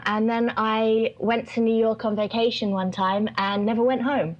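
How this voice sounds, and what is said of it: Southeast English accent. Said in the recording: “I was born down in the southeast of England, as you may be able to tell from the accent.”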